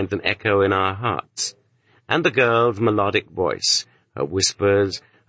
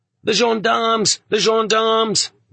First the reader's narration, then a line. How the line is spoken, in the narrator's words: the prisoners cried out happily